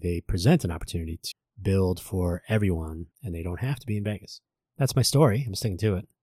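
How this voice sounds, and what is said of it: Strained, struggling voice. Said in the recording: “You can hear my voice is already fighting with me. Uh, allergy season in Vegas.”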